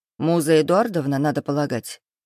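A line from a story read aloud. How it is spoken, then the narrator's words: Amused snort. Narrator (Russian): хмыкнул незнакомец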